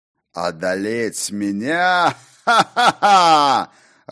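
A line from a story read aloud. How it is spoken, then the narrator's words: Loud laughter. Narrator (Russian): расхохотался Ракот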